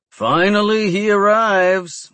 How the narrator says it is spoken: he bellows

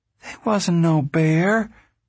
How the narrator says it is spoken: Winfield said uneasily

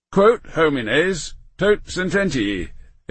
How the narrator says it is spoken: exclaimed the Duke

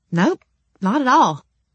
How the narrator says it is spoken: I replied brightly

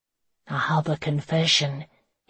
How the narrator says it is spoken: he murmured into her hair

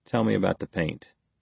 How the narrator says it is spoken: he said quietly

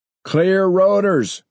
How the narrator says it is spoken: Maury shouted

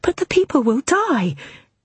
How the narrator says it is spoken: a raw stenographer blurted out

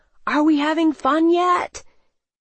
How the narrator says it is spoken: I smiled and yelled

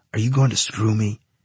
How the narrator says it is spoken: he asked quietly

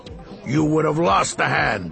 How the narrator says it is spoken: he growled

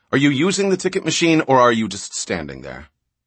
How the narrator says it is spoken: it said irritably

